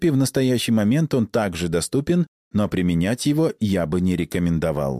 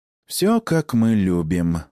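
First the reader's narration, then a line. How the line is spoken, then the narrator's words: Affectionate purr. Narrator (Russian): ласково промурлыкал Истир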